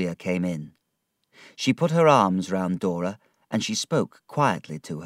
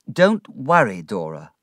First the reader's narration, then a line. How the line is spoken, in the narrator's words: I said